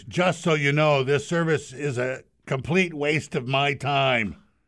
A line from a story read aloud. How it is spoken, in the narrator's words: she said to her husband in a loud voice